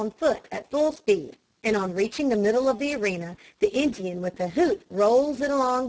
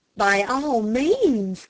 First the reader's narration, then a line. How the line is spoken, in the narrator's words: cried Dick enthusiastically